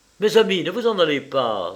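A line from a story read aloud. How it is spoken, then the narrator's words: Male exclaiming. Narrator (French): s'écria-t-il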